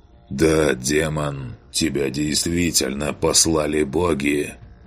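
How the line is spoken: Hoarse. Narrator (Russian): Хрипло произнес он

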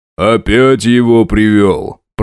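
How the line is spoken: Deep bass. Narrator (Russian): пробасил док

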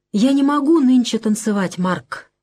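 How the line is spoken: Weak, plaintive voice. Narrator (Russian): вдруг слабо и жалобно говорит Маня

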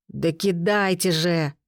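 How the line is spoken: Growl. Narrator (Russian): прорычал он

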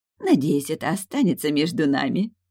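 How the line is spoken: Giggling. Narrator (Russian): хихикнула снова генеральша

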